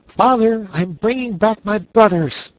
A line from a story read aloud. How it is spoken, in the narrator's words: cried Ernest